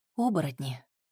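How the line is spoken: Soft whisper. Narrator (Russian): тихо шепнула Вика

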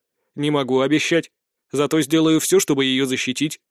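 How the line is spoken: Very serious promise. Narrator (Russian): самым серьезным тоном пообещал

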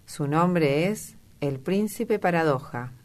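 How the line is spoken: Plain. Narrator (Spanish): dijo Dorian

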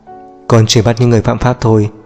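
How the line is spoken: Cold reply. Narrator (Vietnamese): Cậu lạnh lùng đáp lại

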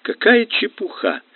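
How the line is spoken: Exclaiming. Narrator (Russian): воскликнула Эвдора

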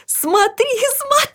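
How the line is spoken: Shouting. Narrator (Russian): закричала Людмила

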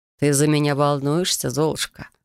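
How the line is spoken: Purring. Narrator (Russian): промурлыкал Трей

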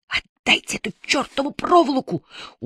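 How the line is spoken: Threatening through gritted teeth. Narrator (Russian): угрожающе произнес он сквозь зубы

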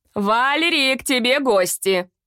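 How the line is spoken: Shouting. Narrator (Russian): прокричала

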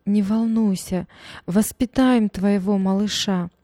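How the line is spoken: Tearful comforting mother. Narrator (Russian): Мама всхлипывая сквозь слезы, утешала дочь

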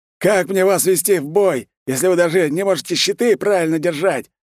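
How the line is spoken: Frenzied bellowing man. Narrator (Russian): С пеной изо рта орал усатый мужик

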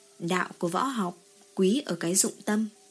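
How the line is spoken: Cold. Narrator (Vietnamese): Diệp Chiêu lạnh lùng nói

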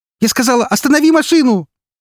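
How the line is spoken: Angry shout near sobbing. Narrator (Russian): Зло, почти срываясь в рыдание, закричала она

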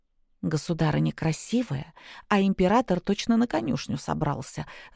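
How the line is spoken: Whispering. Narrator (Russian): зашептала Аннет

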